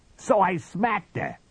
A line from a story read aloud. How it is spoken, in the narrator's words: shouted Biggs